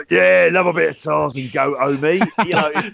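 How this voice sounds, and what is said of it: Exaggerated geezer accent. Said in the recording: “he was doing it in a more geezery accent than me ... that sounds like our impression of you”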